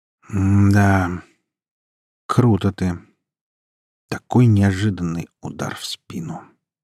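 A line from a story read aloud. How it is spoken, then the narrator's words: Doomed, resigned voice. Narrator (Russian): обреченным голосом произнес супруг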